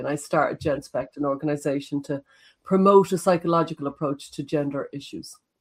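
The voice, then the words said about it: Irish accent, slight Galway. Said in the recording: “she's Irish ... a bit of a mix of an accent ... a slight Galway accent, possibly inherited via her father”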